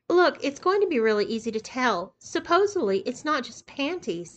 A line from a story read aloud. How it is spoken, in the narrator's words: said Yolanda